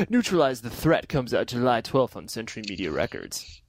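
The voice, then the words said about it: Radio DJ announcer voice. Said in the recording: “here's my DJ voice again”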